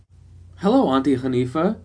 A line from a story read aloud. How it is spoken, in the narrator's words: greeted in a cheerful voice